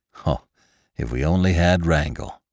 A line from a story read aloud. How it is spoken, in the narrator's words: exclaimed Venters